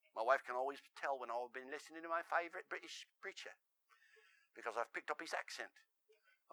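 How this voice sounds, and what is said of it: Usual voice. Nothing is said of it.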